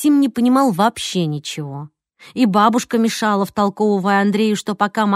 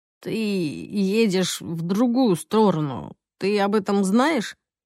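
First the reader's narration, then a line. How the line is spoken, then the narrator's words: Gloomy hoarse mutter. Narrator (Russian): Хмуро буркнул Максим совершенно сиплым голосом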